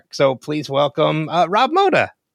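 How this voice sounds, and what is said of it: Voice cracks with excitement. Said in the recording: “my voice cracked as I said your last name. ... It's the excitement in my voice.”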